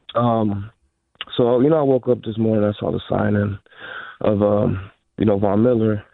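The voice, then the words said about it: Sick, under-the-weather voice. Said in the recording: “sorry for the voice. I'm a little under the weather.”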